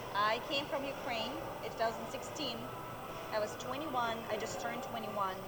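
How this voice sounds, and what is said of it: Speaks with a foreign accent. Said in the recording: “You have an accent”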